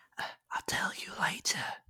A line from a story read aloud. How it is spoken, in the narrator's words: Haley whispered